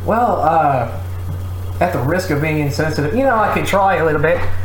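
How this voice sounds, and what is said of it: Usual voice. Nothing is said of it.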